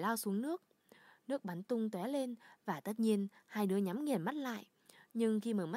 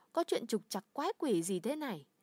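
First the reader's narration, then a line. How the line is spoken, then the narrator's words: Somewhat frightened exclamation. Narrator (Vietnamese): Polly thốt lên, giọng sợ hãi, nhưng cũng không quá sợ hãi như bạn nghĩ đâu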